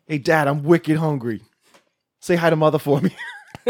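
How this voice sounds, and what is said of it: Put-on Boston accent. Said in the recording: “talking with a Boston accent”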